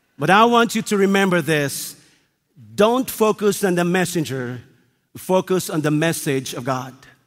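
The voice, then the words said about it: Speaks with a distinctive accent. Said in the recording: “my accent is unique”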